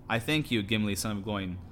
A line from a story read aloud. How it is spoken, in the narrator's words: said